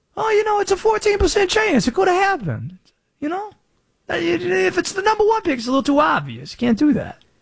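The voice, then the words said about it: Imitates another person's voice, put-on accent. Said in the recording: “Where did this accent come from? Wait, where did this accent come from? ... he had to channel the Ed Orgeron there. That's pretty good.”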